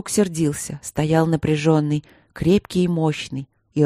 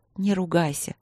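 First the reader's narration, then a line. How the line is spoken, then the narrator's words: Soft pleading. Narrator (Russian): попросила она мягко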